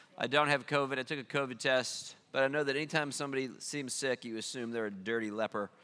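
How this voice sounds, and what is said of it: Stuffy, congested voice. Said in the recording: “I have a cold”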